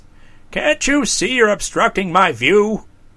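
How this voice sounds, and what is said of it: Fretful, complaining character voice. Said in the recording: “he called in a fretful voice.”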